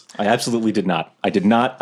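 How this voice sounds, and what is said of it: Calm, quiet indoor voice. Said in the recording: “I'm saying this like in a calm voice, like an indoor voice, but we are falling.”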